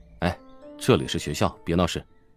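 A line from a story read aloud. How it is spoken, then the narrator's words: Deep, steady voice. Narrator (Chinese): 乔治 沉声道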